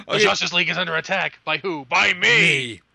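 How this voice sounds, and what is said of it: Kevin Conroy Batman impression. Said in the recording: “my Kevin Conroy voice is, in fact, an impersonation, and I usually just talk like Batman all the time”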